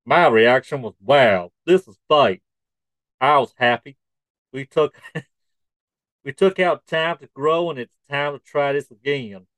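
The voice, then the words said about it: Put-on Texas accent. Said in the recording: “I'm going to try and do a Texas accent here.”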